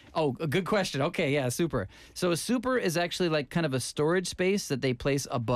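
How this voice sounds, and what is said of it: Usual voice. Nothing is said of it.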